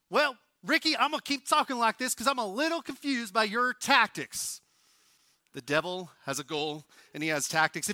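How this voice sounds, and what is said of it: Movie character's Southern-style accent. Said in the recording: “how I can do that accent so well, I'm from Oklahoma ... your rendition of Talladega Nights”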